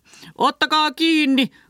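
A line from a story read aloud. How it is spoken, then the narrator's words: Boss roaring. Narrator (Finnish): karjui pomo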